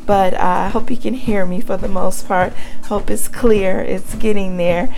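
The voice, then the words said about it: Raspy, hoarse voice. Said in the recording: “I have had laryngitis ... My voice is still a little bit raspy”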